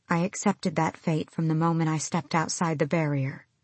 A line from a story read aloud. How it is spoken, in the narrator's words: she said quietly